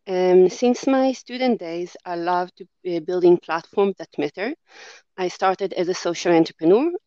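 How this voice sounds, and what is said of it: Israeli accent. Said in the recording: “you might be able to tell from my accent that I'm not Australian born. I'm from Israel”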